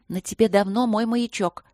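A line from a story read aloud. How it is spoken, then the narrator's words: Hurried whisper. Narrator (Russian): торопливо прошептала пустота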